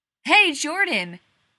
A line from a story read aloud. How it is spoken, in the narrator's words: she hollered